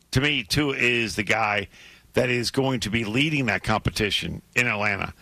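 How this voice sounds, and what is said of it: Hoarse, strained voice. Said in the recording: “I'm losing my voice ... your voice is struggling a little bit”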